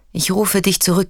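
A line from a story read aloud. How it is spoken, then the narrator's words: Plain. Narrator (German): sagt der Agent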